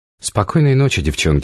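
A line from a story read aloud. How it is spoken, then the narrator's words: Plain. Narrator (Russian): сказала я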